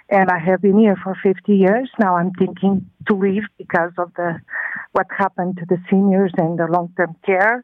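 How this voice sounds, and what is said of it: Non-native English accent. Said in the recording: “As you can tell by my accent, yes, I am an immigrant”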